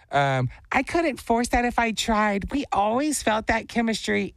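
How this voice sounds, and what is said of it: Put-on girl voice. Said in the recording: “doing a girl voice. This is my best version”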